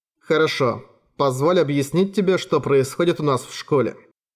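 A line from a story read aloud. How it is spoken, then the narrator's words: Boy speaking calmly. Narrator (Russian): Все еще непредставленный мне мальчик … спокойно произнес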